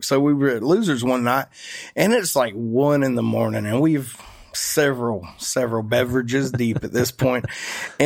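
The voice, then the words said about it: Georgia Southern accent. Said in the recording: “oh my God, I love your accent. Where are you from? ... I'm from Georgia.”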